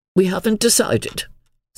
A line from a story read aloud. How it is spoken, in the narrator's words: said Aunt Elizabeth coldly